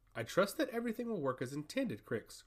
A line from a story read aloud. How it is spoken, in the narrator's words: repeated Kuros, but in a much more firm tone